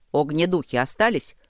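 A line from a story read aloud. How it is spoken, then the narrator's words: Shouted. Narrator (Russian): крикнул Ровент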